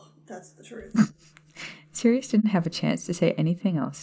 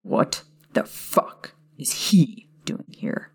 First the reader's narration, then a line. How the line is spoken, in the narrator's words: Sirius snapped